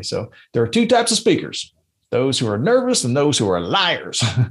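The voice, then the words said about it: Mark Twain impression. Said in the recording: “my best Mark Twain impersonation”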